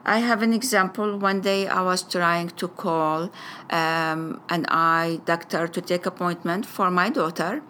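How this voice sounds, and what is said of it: Arabic-accented English. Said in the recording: “my first language I said Arabic... I will have an Arabic way with it... my accent”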